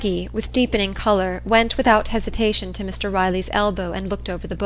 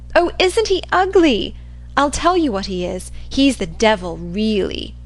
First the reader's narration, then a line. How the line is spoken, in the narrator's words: laughing